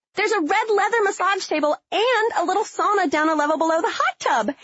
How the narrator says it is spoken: Haley yelled

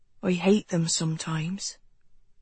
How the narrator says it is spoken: Jonathan remarked quietly

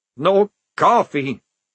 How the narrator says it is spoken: moaned Maledict

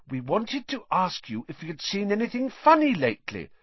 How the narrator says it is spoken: said Hermione quickly

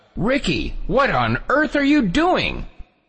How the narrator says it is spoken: I yelled out

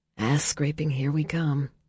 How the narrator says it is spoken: Leo muttered

